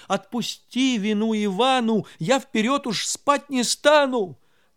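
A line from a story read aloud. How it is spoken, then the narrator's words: Sobbing plea. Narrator (Russian): Иванушка заплакал и рыдаючи просил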